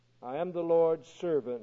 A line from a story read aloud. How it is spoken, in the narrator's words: Mary answered